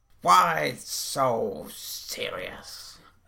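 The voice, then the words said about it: Bad impression of the Joker's voice. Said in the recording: “a really bad impression of Heath Ledger being the Joker ... both of your impressions were of Heath Ledger”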